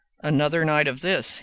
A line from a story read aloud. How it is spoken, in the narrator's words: he added in a graver tone